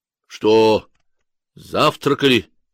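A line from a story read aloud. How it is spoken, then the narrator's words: Stern question. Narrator (Russian): строго спросил он у водителя Алисы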